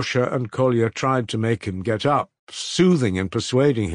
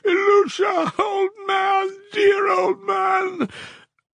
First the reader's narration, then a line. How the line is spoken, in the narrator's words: sobbing and wailing, he began crying out